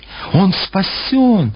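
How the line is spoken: Exclamation. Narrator (Russian): воскликнула она

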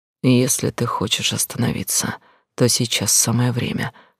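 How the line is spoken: Hoarse. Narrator (Russian): хрипло сказал он

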